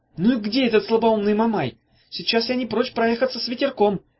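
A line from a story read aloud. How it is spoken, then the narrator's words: Shouting. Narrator (Russian): крикнула Ната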